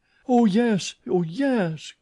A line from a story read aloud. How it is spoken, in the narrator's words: cried the chorus of ballet girls